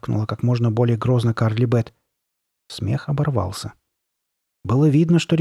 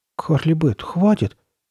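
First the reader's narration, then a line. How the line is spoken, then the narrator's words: Uncertain mutter. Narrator (Russian): неуверенным голосом пробормотал Чак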